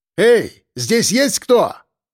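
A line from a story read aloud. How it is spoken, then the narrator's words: Shout. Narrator (Russian): крикнул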